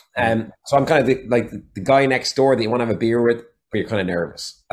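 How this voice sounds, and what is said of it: Irish accent. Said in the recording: “his voice, his accent ... I've got the Irish accent”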